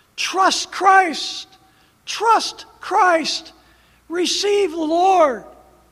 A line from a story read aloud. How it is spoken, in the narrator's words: yelling to people to trust the Lord